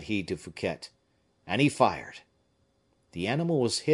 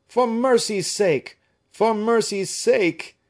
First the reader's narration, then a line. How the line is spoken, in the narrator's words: cried D'Artagnan